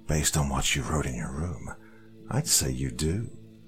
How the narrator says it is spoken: Feeling a completely new and foreign hatred spread through me, I whisper

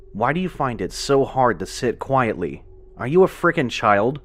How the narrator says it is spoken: he hissed at Joseph

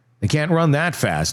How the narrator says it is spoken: he said

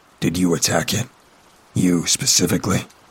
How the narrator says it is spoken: said in a gruff tone

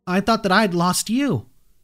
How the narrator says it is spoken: I shouted into her dress

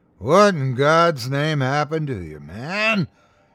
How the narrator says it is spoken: he boomed

